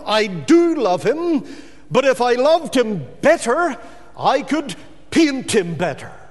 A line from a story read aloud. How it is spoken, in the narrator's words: exclaimed Dorr